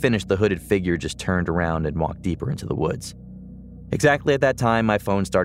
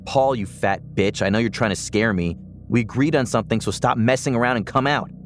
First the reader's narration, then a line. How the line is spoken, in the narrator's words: I shouted